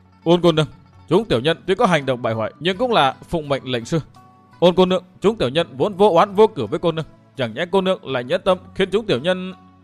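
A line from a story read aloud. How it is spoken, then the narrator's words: Trembling voice. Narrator (Vietnamese): run rẩy nói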